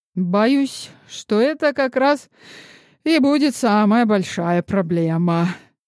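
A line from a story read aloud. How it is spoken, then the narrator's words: Sigh. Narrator (Russian): вздохнул Ян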